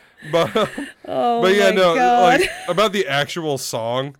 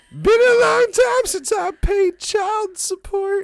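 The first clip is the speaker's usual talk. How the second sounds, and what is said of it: Imitated rock singer voice, near crying. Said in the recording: “a Robert Plant impersonation, and then by the end of it, it becomes Rocko the Clown ... I'm trying to make it sound like he's about to cry.”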